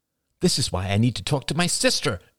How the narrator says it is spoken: exclaimed Rachel

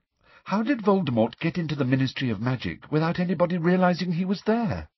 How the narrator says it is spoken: said Hermione in a rather frightened voice

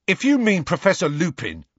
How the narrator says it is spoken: piped up Dean angrily

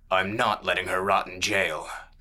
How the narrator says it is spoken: the brawler snarled

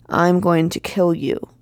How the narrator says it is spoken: he growled

